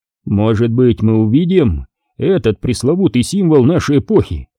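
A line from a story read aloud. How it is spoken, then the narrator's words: Plain. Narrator (Russian): ответил Болан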